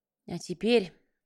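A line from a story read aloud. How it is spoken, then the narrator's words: Sigh. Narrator (Russian): вздохнул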